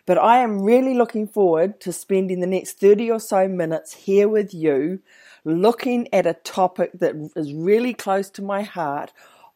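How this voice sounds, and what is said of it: Croaky, worn voice. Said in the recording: “excuse my voice, it's been a long day. I've been training all day, and so I might sound a bit croaky”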